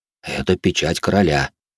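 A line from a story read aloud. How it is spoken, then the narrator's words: Whisper in ear. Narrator (Russian): прошептал дворецкий мне на ухо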